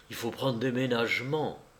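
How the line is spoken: Murmuring. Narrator (French): murmura-t-il

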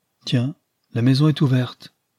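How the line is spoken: Plain. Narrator (French): dit-il

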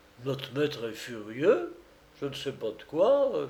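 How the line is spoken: Whispered quietly. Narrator (French): chuchota Jacques à voix basse

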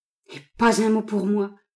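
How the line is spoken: Miserable moaning. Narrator (French): gémit le malheureux

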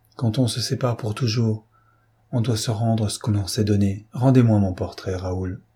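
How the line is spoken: Soft, gentle. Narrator (French): Elle lui dit doucement

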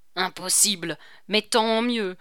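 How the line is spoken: Sleepy exclamation. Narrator (French): s'écria le commandant, tout endormi qu'il était

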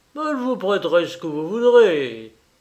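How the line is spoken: Countess exclaiming. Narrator (French): s'écria la comtesse Orsini

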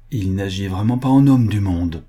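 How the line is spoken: Plain. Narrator (French): dit-elle

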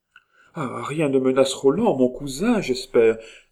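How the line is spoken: Cried out. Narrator (French): s'écria Marguerite

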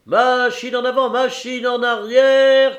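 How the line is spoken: Hoarse shouting. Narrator (French): criait la voix enrouée du capitaine Barbassou

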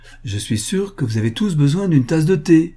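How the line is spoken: Cheerful. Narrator (French): ajouta-t-elle gaiement

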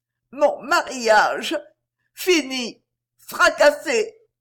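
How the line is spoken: Voice breaking into sob. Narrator (French): Sa voix se brisa dans un sanglot

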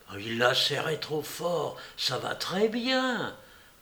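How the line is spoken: Murmured. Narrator (French): murmura Mademoiselle Pied-de-Vache aux oreilles des parents

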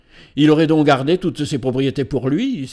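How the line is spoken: Exclaiming. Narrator (French): s'écria l'un d'eux

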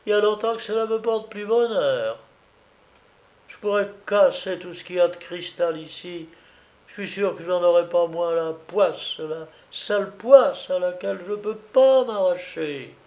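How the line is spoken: Sneering. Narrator (French): fit-elle en ricanant

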